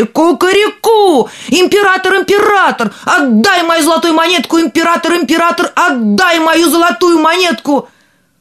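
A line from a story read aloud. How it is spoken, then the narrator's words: Rooster crowing louder. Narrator (Russian): петушок закричал еще громче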